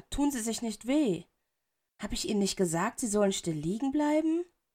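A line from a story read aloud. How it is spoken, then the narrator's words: Gentle, without reproach. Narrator (German): in seiner Stimme lag kein Tadel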